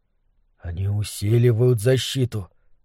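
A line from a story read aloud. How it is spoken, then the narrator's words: Whispered. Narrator (Russian): шепотом произнес Немрод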